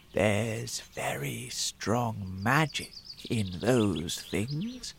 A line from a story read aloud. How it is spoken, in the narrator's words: the old man said softly